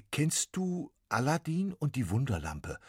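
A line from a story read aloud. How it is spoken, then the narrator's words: Plain. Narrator (German): fragte Max Quietsch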